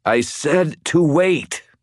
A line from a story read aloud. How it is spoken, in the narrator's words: I wheezed